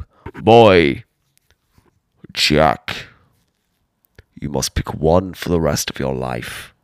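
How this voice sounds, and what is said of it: Deep masculine put-on voice. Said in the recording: “I don't know why God has such a deep voice. ... He's just ripped”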